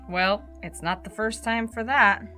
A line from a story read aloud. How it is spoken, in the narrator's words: the captain sighed